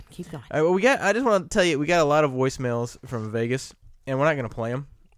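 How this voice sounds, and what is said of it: Deep, raspy, congested voice. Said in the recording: “got a little something going on in the nose this week ... my little deep, raspy voice I got rocking here”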